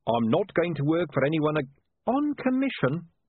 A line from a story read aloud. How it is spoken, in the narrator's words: snapped Saccharissa